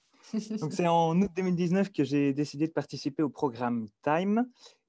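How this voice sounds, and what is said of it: Belgian French accent. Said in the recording (French): “Heureusement, j'ai gardé mon accent belge”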